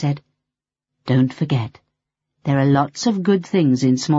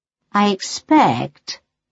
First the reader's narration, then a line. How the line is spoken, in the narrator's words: purred Melody